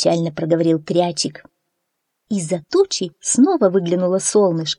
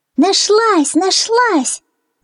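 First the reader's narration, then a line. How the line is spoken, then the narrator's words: Shouting together. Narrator (Russian): закричали Фью и мармеладик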